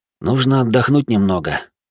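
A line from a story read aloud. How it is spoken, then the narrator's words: Sigh. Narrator (Russian): вздохнул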